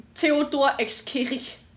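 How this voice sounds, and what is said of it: Strong German Austrian accent. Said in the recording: “read that with a strong German Austrian accent? ... That was pretty good. That was really good.”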